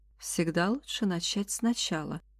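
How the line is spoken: Gentle. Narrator (Russian): мягко заметила Эндж

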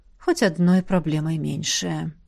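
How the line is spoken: Tired mutter. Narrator (Russian): устало пробормотала наставница

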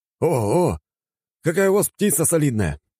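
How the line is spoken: Joyful greeting. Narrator (Russian): радостно встретил меня вчерашний таксист

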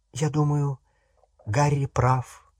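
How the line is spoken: Quiet. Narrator (Russian): тихо сказала Гермиона

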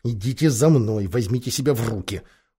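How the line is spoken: Hurried whisper. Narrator (Russian): Торопливо шепнув остальным

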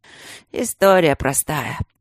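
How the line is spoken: Glum, dejected. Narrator (Russian): сказал Тандаджи уныло

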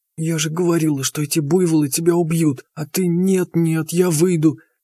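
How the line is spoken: Nagging whisper, kept private. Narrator (Russian): продолжала аптекарша шепотом пылесосить мне мозги, так, чтобы стоявший чуть поодаль Степаныч не слышал ее слова

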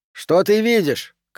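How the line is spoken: Shout. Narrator (Russian): крикнул Колб

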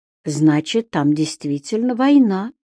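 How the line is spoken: Quiet. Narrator (Russian): тихо сказала Равена

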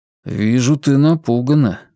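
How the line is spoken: Patient sigh. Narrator (Russian): терпеливо вздохнул Вивьен

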